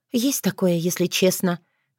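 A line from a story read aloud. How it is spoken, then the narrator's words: Sighing. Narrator (Russian): вздохнула Таня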